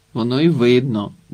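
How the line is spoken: Grumble, old man. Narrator (Ukrainian): буркнув дід Кіпчик

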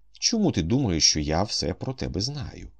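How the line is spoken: Calm question. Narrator (Ukrainian): спокійно запитав він

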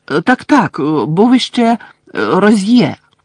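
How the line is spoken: Quick exclamation. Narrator (Ukrainian): швидко вигукнув Каркаров

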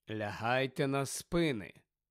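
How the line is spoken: Calm, continuing. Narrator (Ukrainian): спокійно вів далі Фіренце

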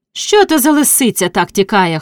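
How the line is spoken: Shout. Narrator (Ukrainian): хтось крикнув

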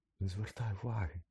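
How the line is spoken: Whispering. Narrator (Ukrainian): шепнула Герміона

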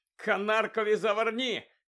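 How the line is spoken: Shouting to crowd. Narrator (Ukrainian): крикнув Фред до захопленої юрби

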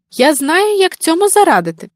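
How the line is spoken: Exclaiming bear cub. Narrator (Ukrainian): вигукнула ведмежа

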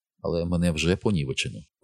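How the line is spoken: Quiet. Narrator (Ukrainian): промовила тихо

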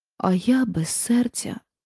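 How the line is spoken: Sighing tin woodman. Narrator (Ukrainian): зітхнув бляшаний лісоруб

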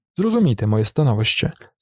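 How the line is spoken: Sad. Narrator (Ukrainian): сумно промовив Фетерер

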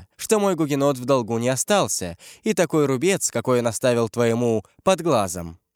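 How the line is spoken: Laughing reply. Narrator (Russian): смеясь ответила Маргарита

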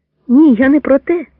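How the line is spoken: Cheerful reply. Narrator (Ukrainian): також весело відповів Запара

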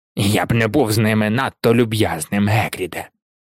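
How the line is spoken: Cold remark. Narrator (Ukrainian): холодно зауважив Філч

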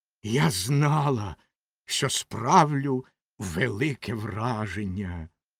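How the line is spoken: Hissed. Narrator (Ukrainian): прошипіла Ракета

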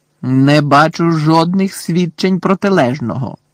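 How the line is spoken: Angry yell. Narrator (Ukrainian): заволав Фадж не менш сердито, ніж професорка

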